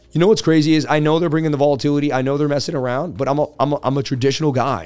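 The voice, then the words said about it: Hoarse, strained losing voice. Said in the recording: “I can't even talk. ... I've lost my voice too.”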